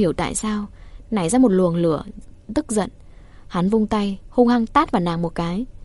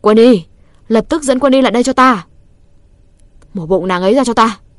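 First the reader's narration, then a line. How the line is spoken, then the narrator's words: Loud shout. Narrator (Vietnamese): Hắn hét lớn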